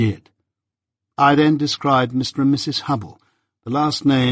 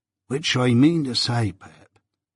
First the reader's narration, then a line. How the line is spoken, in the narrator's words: Joe whispered me